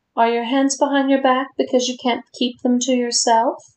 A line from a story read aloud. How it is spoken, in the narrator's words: the woman asked playfully